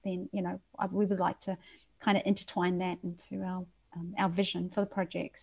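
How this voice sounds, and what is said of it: Slight New Zealand accent. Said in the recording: “your little bit of a Kiwi accent that's coming out even now and then ... that was actually sounded South African”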